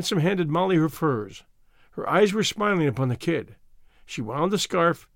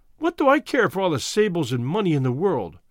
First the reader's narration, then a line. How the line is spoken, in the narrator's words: she cried